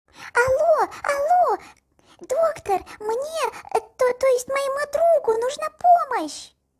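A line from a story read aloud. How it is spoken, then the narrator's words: Shouting into phone. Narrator (Russian): кричал Кротик в трубку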